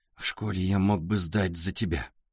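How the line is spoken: Whisper. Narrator (Russian): прошептал Артур

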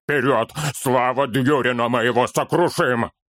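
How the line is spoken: Furious growl. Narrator (Russian): Яростно зарычал Торин

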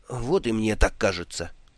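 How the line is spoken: Glum agreement. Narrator (Russian): уныло согласился капитан

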